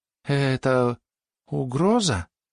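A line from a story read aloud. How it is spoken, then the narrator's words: Weak-voiced question. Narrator (Russian): слабым голосом поинтересовался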